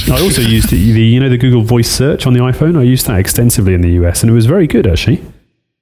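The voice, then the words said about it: English accent. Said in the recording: “my Pommy accent”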